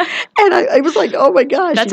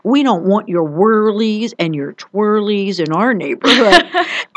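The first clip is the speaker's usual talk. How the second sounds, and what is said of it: Baltimore accent. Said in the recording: “That's a good Baltimore accent.”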